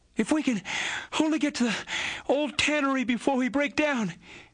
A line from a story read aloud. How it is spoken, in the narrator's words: whispered Tom in short catches between breaths